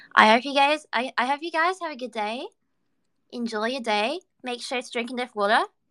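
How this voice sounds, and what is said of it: Put-on Australian accent. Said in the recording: “I'll bring out the Australian accent for the end.”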